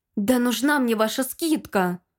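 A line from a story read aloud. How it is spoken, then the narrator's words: Indignant mutter. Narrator (Russian): Возмущенно пробормотала я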